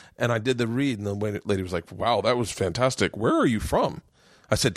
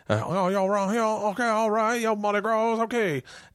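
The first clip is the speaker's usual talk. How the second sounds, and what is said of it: Thick put-on Louisiana accent. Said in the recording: “a real authentic Louisiana accent. And I nailed it... your accent is thick”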